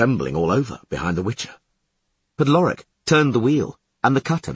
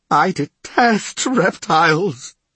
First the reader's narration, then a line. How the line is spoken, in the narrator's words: sobbed Kevinar van Vliet